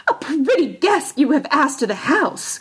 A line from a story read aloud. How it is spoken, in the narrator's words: cried she